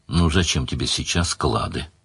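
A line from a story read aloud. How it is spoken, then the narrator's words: Tender. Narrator (Russian): ласково спросила Мара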